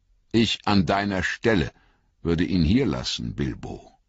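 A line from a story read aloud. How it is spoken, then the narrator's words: Calm. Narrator (German): sagte er ruhig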